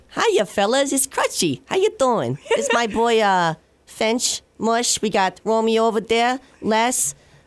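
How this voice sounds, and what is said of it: Put-on New York accent. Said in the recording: “your New York accent ... Very good.”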